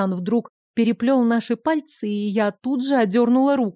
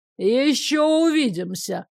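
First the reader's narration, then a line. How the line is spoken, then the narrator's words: Shout after someone. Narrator (Russian): крикнул он мне вслед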